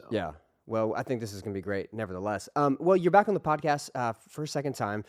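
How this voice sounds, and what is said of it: Cracking voice from a cold. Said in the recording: “My voice sounds like I'm going through puberty right now, but have a little bit of a cold or something like that. So I'm very excited for how masculine my voice sounds”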